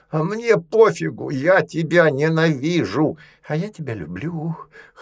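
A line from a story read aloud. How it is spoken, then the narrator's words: Hoarse rasp. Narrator (Russian): хрипел Рузя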